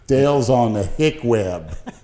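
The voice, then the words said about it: Put-on hick accent. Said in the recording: “Is that your hick accent? ... Yeah. That's my Dale Chance.”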